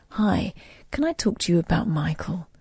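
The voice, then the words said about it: Smooth radio-presenter storytelling voice. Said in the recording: “It was this guy with a lovely radio voice ... he did that like a story”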